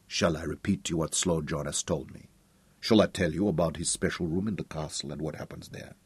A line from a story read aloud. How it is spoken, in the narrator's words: Katinka went on speaking quietly